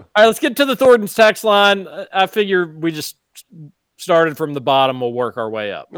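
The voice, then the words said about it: Kentucky Highlands drawl. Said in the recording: “my Highlands accent growing up in the Highlands ... my Highlands drawl”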